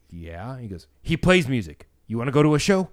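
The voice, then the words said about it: Imitates another person's voice. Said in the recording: “my impression of him is going to be spot on”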